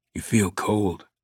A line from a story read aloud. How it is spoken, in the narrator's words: Langdon whispered